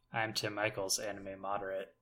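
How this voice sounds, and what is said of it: Sad-sounding voice. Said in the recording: “sound so sad”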